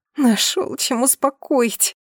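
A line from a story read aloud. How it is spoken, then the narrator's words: Moaned. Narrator (Russian): простонала я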